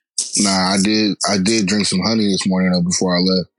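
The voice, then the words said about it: Slightly raspy voice. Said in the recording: “I'm trying to save my voice because I'm, i woke up a little bit raspy this morning”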